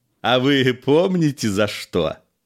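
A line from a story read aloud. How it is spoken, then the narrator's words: Laughing. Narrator (Russian): засмеялся пристав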